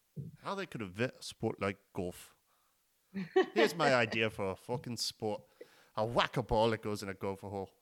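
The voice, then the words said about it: Scottish accent, imitates another person's voice. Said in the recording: “Scottish accent ... rest well, Robin Williams”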